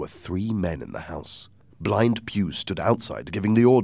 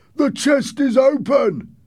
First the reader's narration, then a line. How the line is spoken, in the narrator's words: one man shouted from the window